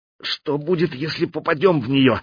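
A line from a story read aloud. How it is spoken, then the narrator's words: Tense question. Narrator (Russian): спросил Кирилл напряженным голосом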